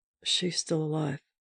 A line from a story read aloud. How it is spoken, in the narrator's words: he said quietly